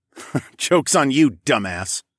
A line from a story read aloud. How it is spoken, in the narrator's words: chuckled